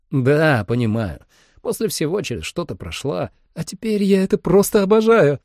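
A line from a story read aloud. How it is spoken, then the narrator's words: Laughing. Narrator (Russian): рассмеялась Холли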